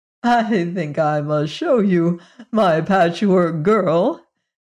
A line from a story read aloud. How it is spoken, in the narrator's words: said Margalot, laughing at the boy's astonishment